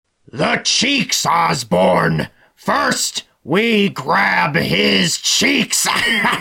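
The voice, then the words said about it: Rough imitation of another person's voice. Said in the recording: “my haphazard Willem Dafoe impression”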